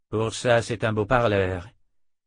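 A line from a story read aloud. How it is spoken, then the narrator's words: Muttering. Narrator (French): marmonna Dalton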